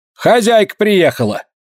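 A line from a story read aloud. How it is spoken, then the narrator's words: Shouting. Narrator (Russian): Вероника крикнула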